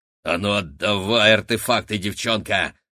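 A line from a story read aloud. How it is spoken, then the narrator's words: Grumbling. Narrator (Russian): буркнула Рогнеда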